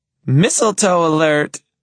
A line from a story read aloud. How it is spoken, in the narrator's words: she shrieks